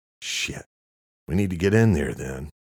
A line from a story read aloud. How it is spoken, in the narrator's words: Luke sighed expectantly